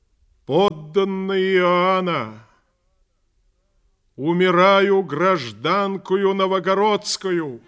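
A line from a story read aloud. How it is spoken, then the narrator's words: Loud address to crowd. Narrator (Russian): громко сказала народу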